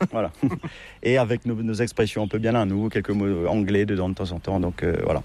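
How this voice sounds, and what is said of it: Mauritian French accent, sing-song. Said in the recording (French): “notre accent mauricien, notre patois ... ce français qui est un petit peu ... peut-être un peu chantant”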